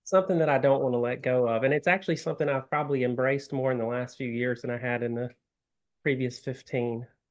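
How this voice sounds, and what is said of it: Sophisticated-sounding Southern US accent. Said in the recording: “I practice my accent daily. ... I love a Southern accent. ... You have a very sophisticated sounding one”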